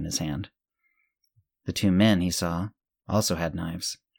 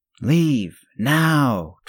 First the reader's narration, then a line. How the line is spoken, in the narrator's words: Tristan bellowed